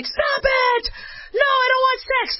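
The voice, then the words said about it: Yelling. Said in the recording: “That's yelling.”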